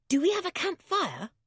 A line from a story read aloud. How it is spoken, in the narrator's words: asked George eagerly